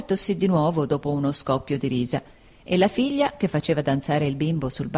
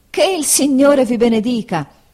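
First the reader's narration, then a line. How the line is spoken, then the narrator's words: Surprised exclamation after coughing. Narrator (Italian): esclamò Homer dopo essere caduto per la sorpresa in un accesso di tosse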